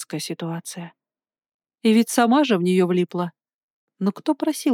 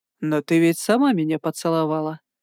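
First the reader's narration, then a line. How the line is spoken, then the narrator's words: Mocking retort. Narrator (Russian): насмешливо бросил в ответ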